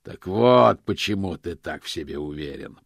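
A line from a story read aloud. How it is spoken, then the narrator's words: Growled. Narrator (Russian): прорычал Позолот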